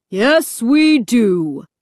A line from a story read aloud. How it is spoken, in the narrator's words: the deep, booming voice replied